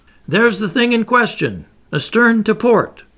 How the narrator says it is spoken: the harpooner shouted

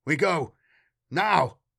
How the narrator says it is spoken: Aesop yelled

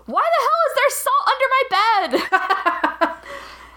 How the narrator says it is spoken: still has a fever, but he yells

